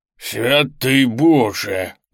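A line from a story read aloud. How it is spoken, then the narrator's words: Hoarse male shout. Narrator (Russian): выкрикнул хриплый мужской голос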